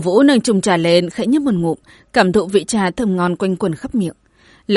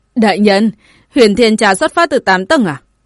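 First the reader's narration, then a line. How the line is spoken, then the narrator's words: Laughing. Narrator (Vietnamese): Tổ Vũ bật cười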